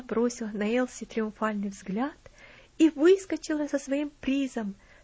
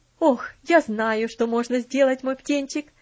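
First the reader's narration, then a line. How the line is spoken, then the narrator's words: Sudden exclamation, aunt. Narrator (Russian): Внезапно воскликнула тетушка Хлоя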